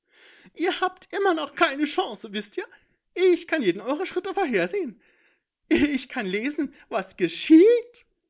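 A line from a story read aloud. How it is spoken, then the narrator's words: Shrill, arrogant, manic laughter. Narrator (German): Das Lachen des Eindringlings wurde noch schriller, überheblicher, irrer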